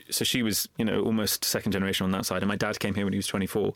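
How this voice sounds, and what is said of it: English accent. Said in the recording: “English accent? ... she picked up that accent. And so I'm the eldest and I sound just like my mum ... she sounds whiter than you”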